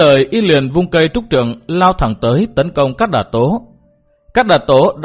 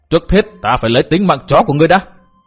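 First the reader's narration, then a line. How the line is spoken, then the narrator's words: Loud shout, wounded man. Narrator (Vietnamese): Tên cái bang đệ tử thọ kiếm thương liền lớn tiếng quát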